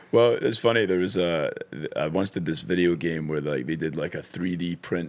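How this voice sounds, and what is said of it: Scottish accent. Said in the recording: “You could have had a great career all based off your Scottish accent.”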